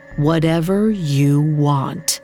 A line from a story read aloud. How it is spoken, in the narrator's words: The bokor slowly said